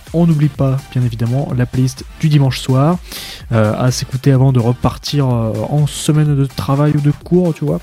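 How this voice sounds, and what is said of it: Puts on an unspecified accent. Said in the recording (French): “Je sais pas pourquoi je prends cet accent là, ça m'est venu comme ça, instinctivement.”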